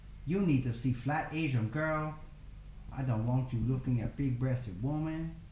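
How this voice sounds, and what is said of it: Put-on Chinese accent. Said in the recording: “That's the best Chinese accent you're ever going to hear.”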